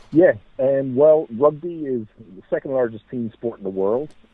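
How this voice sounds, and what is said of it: Irish accent. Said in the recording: “accent you have there, that Irish accent, comes across real well.”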